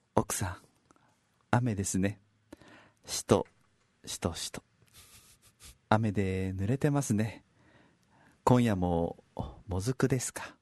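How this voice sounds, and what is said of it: Whispered, hushed delivery. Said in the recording (Japanese): “恒例のささやきおかみのコーナー ... ささやき、おかみの、見本となるような方は見ましたんでね ... エコー入ってました。”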